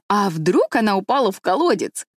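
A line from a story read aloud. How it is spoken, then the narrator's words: Cheerful guess. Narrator (Russian): весело предположил Дэви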